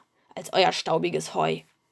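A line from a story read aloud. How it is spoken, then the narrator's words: Murmuring. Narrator (German): murmelte er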